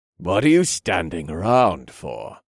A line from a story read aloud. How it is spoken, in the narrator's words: the old elf asked, and he looked at my team with a terrible sneer